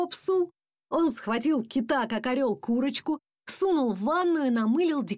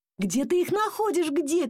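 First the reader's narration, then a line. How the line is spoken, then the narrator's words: Father shouting. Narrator (Russian): кричал папа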